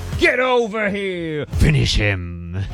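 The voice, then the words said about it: Mortal Kombat announcer impression. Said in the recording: “impersonating Mortal Kombat”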